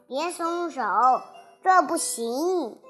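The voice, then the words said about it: Trembling, shaky voice. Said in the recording (Chinese): “他用发抖的声音说”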